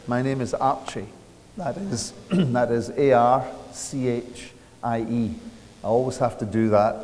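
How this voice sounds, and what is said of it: Speaks with a noticeable accent. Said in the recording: “I'll talk for a little moment till you get used to the accent.”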